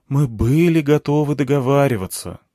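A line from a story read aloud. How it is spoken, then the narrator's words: Sighing. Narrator (Russian): вздохнул Анатолий Евгеньевич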